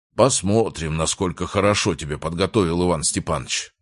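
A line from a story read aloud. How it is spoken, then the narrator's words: Grumble. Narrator (Russian): проворчал Рязанцев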